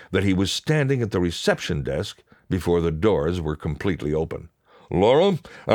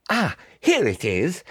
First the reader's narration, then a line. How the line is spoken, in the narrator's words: he exclaimed in triumph